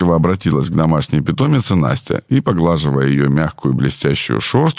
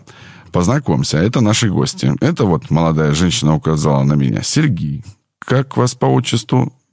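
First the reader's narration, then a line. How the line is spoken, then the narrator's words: Plain. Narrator (Russian): Я сказал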